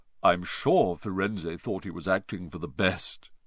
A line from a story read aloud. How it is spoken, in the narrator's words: he said in his gloomy voice